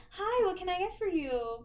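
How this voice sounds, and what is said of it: Overly polite customer service voice. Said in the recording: “your overly white customer service voice”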